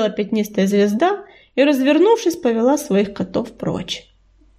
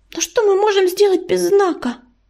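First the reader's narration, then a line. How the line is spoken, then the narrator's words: Desperate squeak, small animal. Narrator (Russian): в отчаянии пискнула белочка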